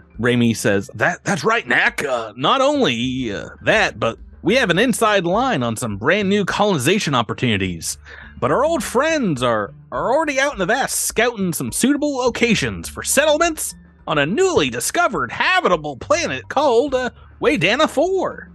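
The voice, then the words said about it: Imitates another person's voice. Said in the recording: “your impression of me? ... That's what you sound like to all of us”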